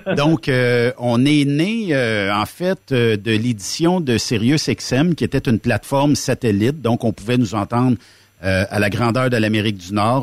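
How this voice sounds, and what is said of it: Québécois French accent. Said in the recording (French): “j'espère que mon accent, euh, les, gens vont comprendre euh, en Europe”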